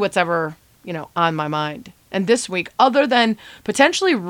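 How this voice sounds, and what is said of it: Usual voice. Nothing is said of it.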